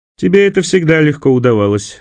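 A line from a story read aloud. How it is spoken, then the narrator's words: Laughing. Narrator (Russian): засмеялся эфиоп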